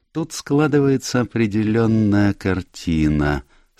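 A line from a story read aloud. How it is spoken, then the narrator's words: Almost dreamy. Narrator (Russian): сказал сыщик почти мечтательным тоном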